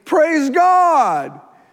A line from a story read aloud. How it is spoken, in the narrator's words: he came back to Jesus shouting